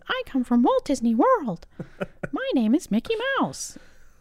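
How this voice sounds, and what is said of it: Mickey Mouse cartoon voice impression. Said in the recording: “Pretty good impression. ... It really does sound like that.”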